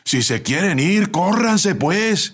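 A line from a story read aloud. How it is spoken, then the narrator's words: Shouting from outside. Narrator (Spanish): gritó el ayudante desde afuera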